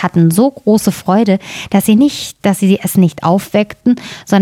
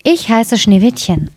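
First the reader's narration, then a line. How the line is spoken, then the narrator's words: Plain. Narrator (German): antwortete es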